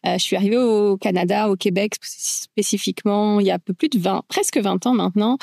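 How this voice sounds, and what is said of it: French accent from France. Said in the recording (French): “j'ai gradué en France, comme mon accent le laisse paraître encore”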